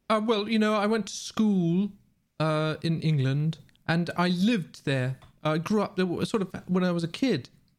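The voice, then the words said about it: English accent. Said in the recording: “Why do you even have an English accent?”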